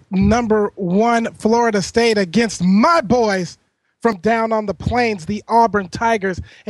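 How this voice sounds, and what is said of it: Ecstatic, excited voice. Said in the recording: “if you cannot hear it in my voice right now ... I am ecstatic”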